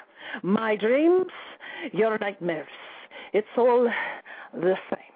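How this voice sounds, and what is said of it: Dramatic poetry reading with accent. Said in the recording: “it was a very dramatic reading. You were using an accent and such.”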